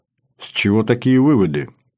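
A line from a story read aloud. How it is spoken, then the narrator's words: Almost calm question. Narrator (Russian): уточняет почти спокойным голосом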